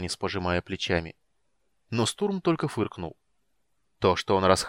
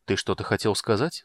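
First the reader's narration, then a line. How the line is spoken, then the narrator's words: Plain question. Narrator (Russian): спросил мага Танис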